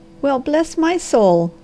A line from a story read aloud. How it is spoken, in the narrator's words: cried she